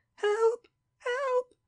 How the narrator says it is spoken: shrieks of a tortured being borne far into the night

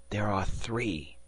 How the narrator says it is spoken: Wells murmured in my ear

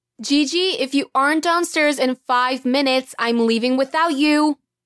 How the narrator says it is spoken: Mom yelled up the stairs

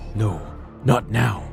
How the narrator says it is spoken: freezes in terror, mumbling

